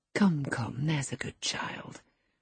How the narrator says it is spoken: I whispered

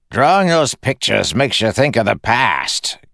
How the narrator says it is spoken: Gemmell snapped

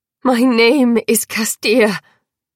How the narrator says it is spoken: I spat

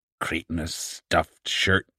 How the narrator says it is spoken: The old woman muttered something that sounded like

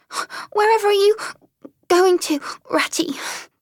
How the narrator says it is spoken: cried the tearful mole, looking up in alarm

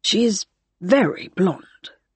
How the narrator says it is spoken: murmured Graham

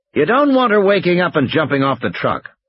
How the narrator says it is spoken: Harding snapped

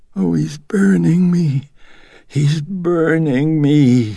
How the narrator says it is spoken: she was moaning

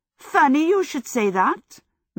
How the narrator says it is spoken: Megan exclaimed

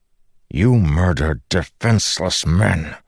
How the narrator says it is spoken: Dalinar said through gritted teeth

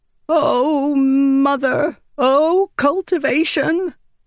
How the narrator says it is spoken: Windle cried

